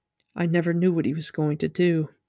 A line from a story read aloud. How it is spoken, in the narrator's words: Inktar said softly as if talking to himself